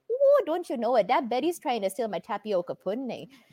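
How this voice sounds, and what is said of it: Imitated thick Minnesota accent. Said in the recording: “her accent is just so thick and so good. And after watching that movie, I talked in that accent ... Minnesota”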